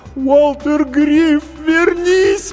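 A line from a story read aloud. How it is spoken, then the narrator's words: Sobbed. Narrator (Russian): прорыдала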